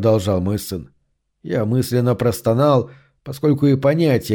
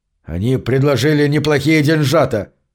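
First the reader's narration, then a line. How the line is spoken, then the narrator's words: Snapped retort. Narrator (Russian): огрызнулся Гарри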